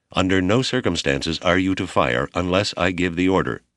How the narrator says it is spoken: their captain said

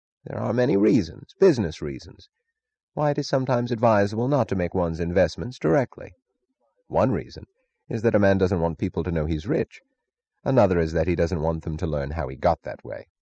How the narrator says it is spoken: Taggart said dryly

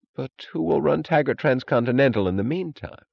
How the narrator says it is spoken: She chuckled

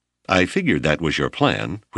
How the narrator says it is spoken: Whip laughed evenly

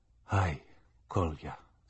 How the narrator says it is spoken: Zacharias said weakly

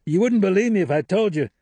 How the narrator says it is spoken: yelled

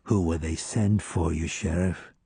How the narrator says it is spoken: Shade leaned forward and murmured in my ear

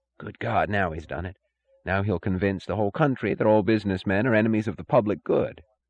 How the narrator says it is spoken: He listened in bewildered indignation, and he whispered to Larkin

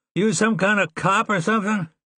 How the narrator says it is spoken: One of the ones in the back shouted

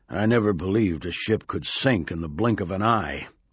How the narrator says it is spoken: Finally, Brown muttered

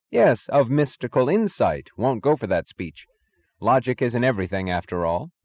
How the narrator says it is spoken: he repeated firmly

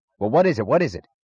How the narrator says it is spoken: he snapped

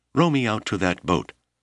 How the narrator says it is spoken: she cried

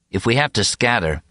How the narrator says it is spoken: he suggested calmly

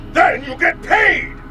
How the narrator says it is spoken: shouted

